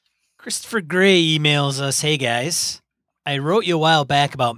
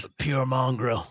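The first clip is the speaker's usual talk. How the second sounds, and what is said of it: Poor put-on Australian accent. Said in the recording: “You're really bad Australian accent.”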